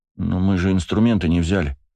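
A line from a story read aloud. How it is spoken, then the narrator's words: Bewildered. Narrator (Russian): растерянно проговорил Бельфигор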